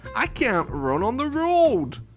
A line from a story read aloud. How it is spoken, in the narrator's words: cried Fox